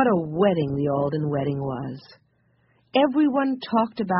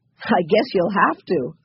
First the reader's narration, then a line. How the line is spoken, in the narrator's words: laughed Joe